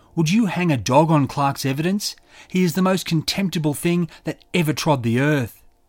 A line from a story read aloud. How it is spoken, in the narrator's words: Haynes shouted